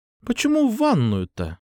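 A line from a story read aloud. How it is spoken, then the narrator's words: Slightly bewildered. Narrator (Russian): Прозвучало это немного растерянно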